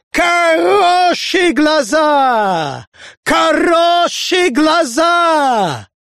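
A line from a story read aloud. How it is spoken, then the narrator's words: Shrill shout. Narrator (Russian): увидев Капелиуса, пронзительно крикнул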